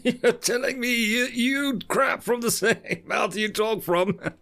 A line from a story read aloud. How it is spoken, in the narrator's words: Admiral Malcolm said, in between bursts of laughter